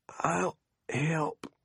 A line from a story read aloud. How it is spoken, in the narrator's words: he wheezed